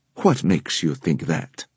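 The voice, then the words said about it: Low English accent. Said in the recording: “asked the man in a low English accent.”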